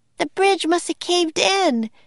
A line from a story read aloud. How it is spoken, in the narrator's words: cried Annie